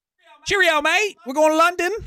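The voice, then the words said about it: Weak put-on British accent. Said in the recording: “That's all I could do for that accent.”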